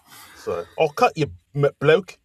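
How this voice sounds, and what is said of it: Put-on English accent. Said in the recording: “flawless English accent”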